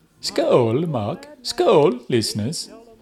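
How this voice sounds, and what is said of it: Mock Danish accent. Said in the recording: “That is a fine mock Danish accent there. ... You are better than the Swedish chef from The Muppets.”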